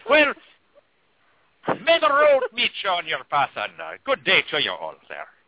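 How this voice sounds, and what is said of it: Put-on Irish accent. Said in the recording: “We needed the Irish hoodoo... the Irish accent to be one of the sexiest accents that there is... his accent was so sexy”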